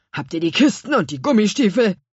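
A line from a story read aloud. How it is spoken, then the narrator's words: Growling. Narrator (German): knurrte Herr Kümmerling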